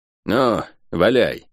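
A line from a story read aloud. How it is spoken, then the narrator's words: Grumbling. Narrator (Russian): пробурчала она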